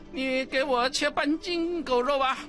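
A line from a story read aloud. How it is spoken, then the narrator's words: Laughing. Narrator (Chinese): 济公笑着说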